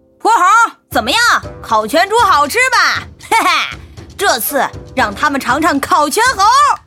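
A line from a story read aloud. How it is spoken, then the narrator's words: Shouting, taunting. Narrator (Chinese): 红孩儿大步走出洞，对孙悟空喊道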